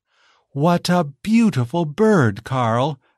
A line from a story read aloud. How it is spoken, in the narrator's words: exclaimed Giselle